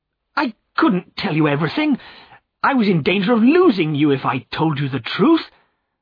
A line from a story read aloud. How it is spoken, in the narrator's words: cried Godfrey, bitterly angry with himself